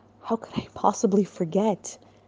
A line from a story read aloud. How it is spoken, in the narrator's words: The Frenchman stared back with a serious look on his face and mumbled in reply